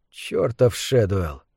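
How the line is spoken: Gentle, without anger. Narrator (Russian): повторил он, но уже мягко, без гнева

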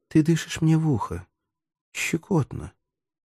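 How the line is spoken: Whisper. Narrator (Russian): прошептала она

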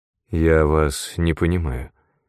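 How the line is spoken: Hesitant. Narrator (Russian): неуверенно начал герцог

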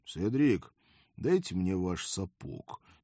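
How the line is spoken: Quiet request. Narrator (Russian): тихо попросил я

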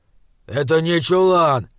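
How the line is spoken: Grumbling. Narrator (Russian): проворчал Изгримнур

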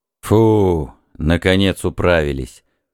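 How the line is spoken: Dull blurt. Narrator (Russian): глухо брякнул Исподон

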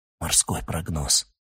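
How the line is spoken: Muffled whisper. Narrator (Russian): Оскар прикрыл трубку рукой и прошептал

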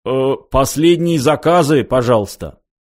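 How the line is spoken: Nervous cough, loud announcement. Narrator (Russian): Бармен нервно кашлянул и громко произнес

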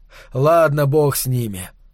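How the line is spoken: Tired snap at himself. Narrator (Russian): устало огрызнулся он на самого себя

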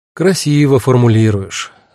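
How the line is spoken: Sighing. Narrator (Russian): вздохнул я

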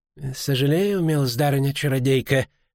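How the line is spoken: Through gritted teeth. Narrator (Russian): процедил Сенешаль Гутлов

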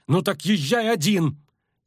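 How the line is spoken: Furious shout. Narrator (Russian): крикнула разъяренная не на шутку Мильва

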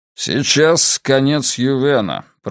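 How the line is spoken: Grumbling. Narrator (Russian): проворчал он

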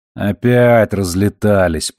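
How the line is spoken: Grumbling. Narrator (Russian): проворчал Робертс

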